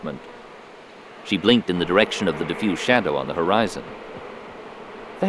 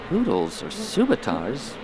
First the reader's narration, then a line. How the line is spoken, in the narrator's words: Barriss asked softly